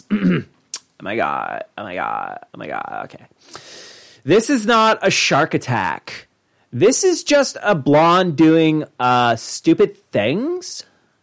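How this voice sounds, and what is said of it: Ditzy blonde voice. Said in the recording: “So I'll do it in a blonde voice.”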